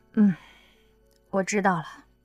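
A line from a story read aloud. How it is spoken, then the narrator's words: Sighing reply. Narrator (Chinese): 刘亚楠只好叹口气，回答道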